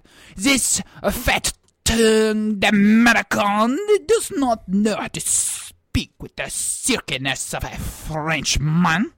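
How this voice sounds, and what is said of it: Put-on, unconvincing French accent. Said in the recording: “I've just never met a French person that sounds exactly like you... my French accent”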